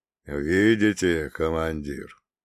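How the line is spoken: Weary, detached. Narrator (Russian): Голос отца Гермогена звучал устало и отрешенно

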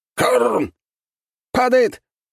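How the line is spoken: Shout. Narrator (Russian): выкрикнул

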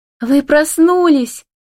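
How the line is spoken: Joyful exclamation close by. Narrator (Russian): радостно восклицает кто-то над ухом

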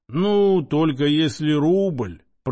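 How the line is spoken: Drawled. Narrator (Russian): протянул Иона

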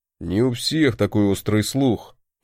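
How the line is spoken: Grumbling. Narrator (Russian): проворчал мой молотоголовый родственник

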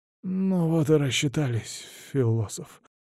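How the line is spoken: Muttering. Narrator (Russian): бормочет Лаар

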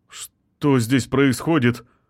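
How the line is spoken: Frightened question. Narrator (Russian): испуганно спросил он

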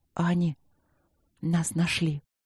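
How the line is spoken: Quiet. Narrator (Russian): тихо сказала я

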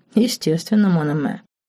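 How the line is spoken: Calm but contemptuous. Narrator (Russian): спокойно проговорил Диего, но Лорен отчетливо услышала в его голосе презрение

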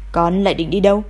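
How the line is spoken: Stern distant voice. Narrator (Vietnamese): giọng nói nghiêm nghị kia lại vọng tới

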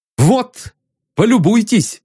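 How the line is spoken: Shouting. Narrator (Russian): закричал он

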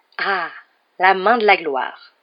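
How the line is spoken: Exclaimed. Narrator (French): s'exclama Monsieur Barjot

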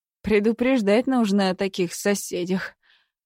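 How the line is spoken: Exhaled. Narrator (Russian): выдохнул он

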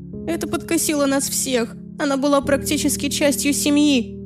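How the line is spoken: Sobbing. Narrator (Russian): всхлипнула подруга

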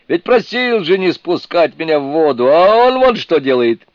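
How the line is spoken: Sputtering shout in water. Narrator (Russian): Отфыркиваясь, опуская пузыри, крикнул он

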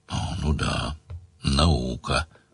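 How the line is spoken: Grumble. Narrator (Russian): проворчал Сварог

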